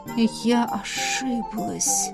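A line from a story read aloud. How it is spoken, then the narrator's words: Hoarse wheeze. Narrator (Russian): просипела Элисандра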